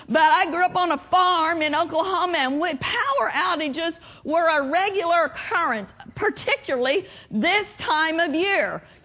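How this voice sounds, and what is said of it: Slight Oklahoma accent. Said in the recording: “I grew up in Oklahoma. Can you tell? Still a little bit of an accent.”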